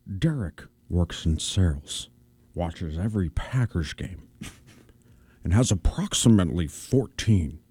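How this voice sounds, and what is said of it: Imitates another person's voice. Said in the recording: “my Sean Connery impression. Which is my worst one”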